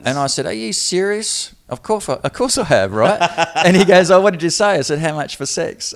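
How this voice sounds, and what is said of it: Foreign English accent, likely Antipodean. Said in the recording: “it takes a minute or two, I think, for people to get used to the accent ... I really like your accent”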